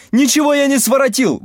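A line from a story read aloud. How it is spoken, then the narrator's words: Howling. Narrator (Russian): вопит он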